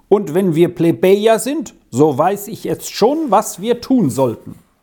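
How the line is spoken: Called out. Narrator (German): rief ihm Lex zu

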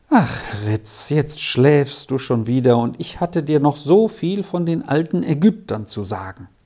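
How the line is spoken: Sighing, pitying. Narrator (German): Er seufzte und sagte mitleidsvoll

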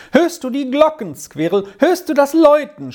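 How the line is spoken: Joyful shout. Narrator (German): schrie er voll Freude auf

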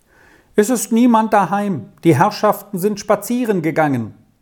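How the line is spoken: Distant call. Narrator (German): rief eine Stimme vom Pächterhause her zu

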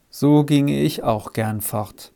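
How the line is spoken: Tired man asking. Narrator (German): fragte der müde Mann

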